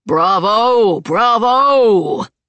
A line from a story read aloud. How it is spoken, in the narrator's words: he called out